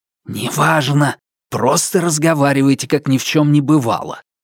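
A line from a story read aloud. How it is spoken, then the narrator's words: Hissed. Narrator (Russian): прошипел я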